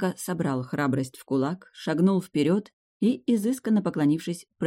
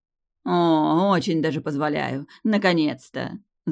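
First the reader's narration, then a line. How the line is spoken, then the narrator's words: Laughing, ordinary mortal. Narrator (Russian): засмеялась Тео, как простая смертная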